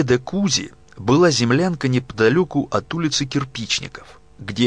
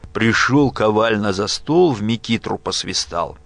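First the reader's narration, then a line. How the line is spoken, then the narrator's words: Tired, grim smirk. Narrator (Russian): Бледный, усталый Евсей мрачно усмехаясь, говорил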